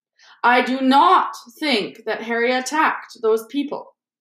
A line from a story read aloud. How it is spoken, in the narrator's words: said Dumbledore loudly